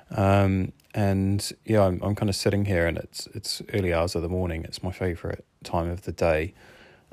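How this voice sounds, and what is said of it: New Zealand accent. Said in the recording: “my accent, I'm not Welsh. Honorary Welsh, but not Welsh. I grew up in New Zealand, so this is why my accent is the way that it is”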